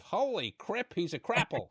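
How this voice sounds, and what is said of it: Bad Peter Griffin impression. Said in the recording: “We needed the Peter Griffin sound effect there ... Worst Peter Griffin impression ever”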